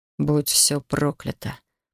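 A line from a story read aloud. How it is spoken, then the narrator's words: Hoarse, pained rasp. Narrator (Russian): прохрипел он, сжимая кулаки и хрипя от боли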